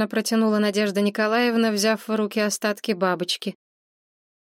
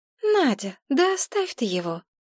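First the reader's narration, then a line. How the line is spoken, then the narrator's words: Calm, tearless. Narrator (Russian): вдруг сказала Мария спокойным голосом, без рыданий, причитаний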